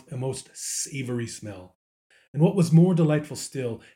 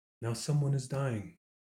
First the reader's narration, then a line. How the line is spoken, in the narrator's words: murmured the little child softly